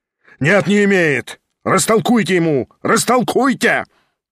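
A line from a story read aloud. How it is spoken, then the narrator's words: Shouting. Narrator (Russian): кричал Гаганов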